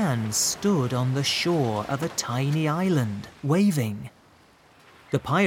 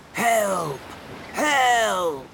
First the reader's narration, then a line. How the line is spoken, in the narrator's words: Ali heard someone shouting